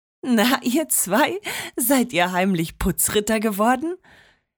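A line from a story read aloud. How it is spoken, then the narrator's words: Grandma laughing. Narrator (German): lachte Oma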